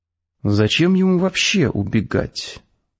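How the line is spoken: Thoughtful. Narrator (Russian): задумчиво сказала Светлана

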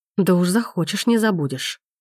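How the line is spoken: Angrily spat. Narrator (Russian): Зло выплевывает Макс

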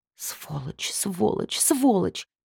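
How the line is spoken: Angry mutter. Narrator (Russian): Пробормотала я сердито

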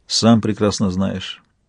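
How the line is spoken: Dull, lifeless voice. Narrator (Russian): сказала она тусклым, безжизненным голосом

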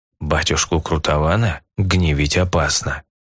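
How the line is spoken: Quiet. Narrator (Russian): столь же тихо произнес Амброс

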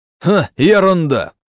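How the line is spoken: Shout. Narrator (Russian): прокричал Владимир

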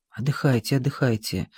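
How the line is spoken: Whispered. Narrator (Russian): шепнул Гиацинтов

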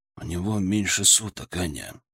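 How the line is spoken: Quiet, lips barely moving. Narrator (Russian): ответил он так же тихо, почти не шевеля губами

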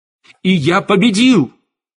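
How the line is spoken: Shout. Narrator (Russian): выкрикнул Штейн

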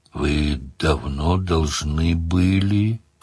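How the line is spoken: Drawl. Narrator (Russian): протянул демон

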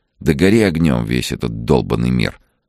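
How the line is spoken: Gloomy suggestion. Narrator (Russian): мрачно предположила Ольга

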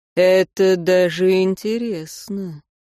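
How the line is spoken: Drawn-out drawl. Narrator (Russian): протянул Герайн

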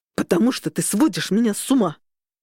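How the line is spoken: Snapping back. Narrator (Russian): огрызнулся в ответ Микель

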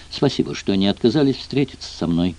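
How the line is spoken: Muttering aloud. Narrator (Russian): пробормотала она вслух

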